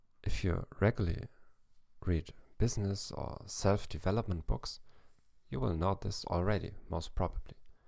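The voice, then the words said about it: German-accented English. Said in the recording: “in English with a German accent”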